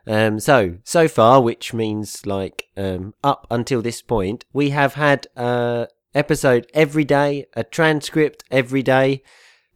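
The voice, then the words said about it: Slightly congested, sick-sounding voice. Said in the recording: “I've got a bit of a cold.”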